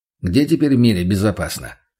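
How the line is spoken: Dry laugh. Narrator (Russian): капитан сухо засмеялся

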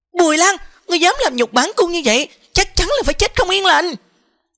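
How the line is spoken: Angry. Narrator (Vietnamese): Tư Hồng Khuynh Yến lập tức giận dữ nói

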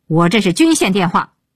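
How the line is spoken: Roaring into phone. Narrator (Chinese): 鹏飞对电话大吼

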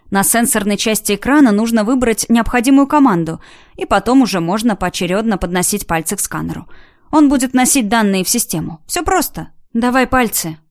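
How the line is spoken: Plain. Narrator (Russian): сказала я парню

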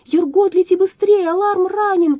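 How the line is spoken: Girl shouting. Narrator (Russian): крикнула девочка

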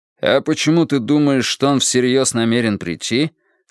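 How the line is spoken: Plain. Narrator (Russian): спросил Страйк

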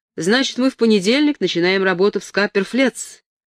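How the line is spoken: Plain. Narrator (Russian): спросил Армстронг

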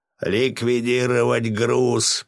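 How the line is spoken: Hoarse rasp. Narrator (Russian): прохрипел Васильев

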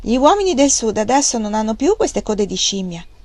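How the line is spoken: Mocking laughing remark. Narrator (Italian): rise del suo codino, e disse

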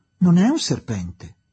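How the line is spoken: Exclaimed. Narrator (Italian): esclamò

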